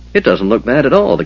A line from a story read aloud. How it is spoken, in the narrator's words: the Kender said cheerfully